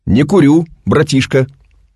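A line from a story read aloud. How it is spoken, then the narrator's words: Loud, tense young man. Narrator (Russian): Молодой человек внутренне напрягся, громко ответил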